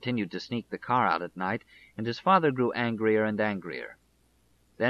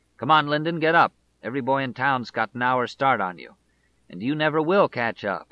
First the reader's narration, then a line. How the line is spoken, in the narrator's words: his father would say harshly